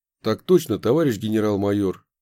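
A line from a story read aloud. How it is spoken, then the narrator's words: Plain. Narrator (Russian): ответил я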